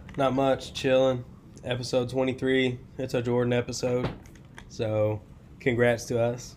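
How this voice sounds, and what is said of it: Hoarse, congested voice. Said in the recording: “I'm feeling a little under the weather, if you guys couldn't tell. My voice is kind of gone. And I'm kind of stuffed up.”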